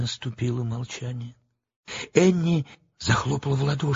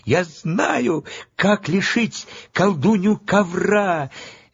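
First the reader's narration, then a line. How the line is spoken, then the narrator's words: Cheerful shout. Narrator (Russian): весело закричала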